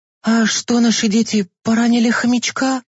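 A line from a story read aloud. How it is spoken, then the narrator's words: Frightened question. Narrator (Russian): испуганно спросила мама Миланы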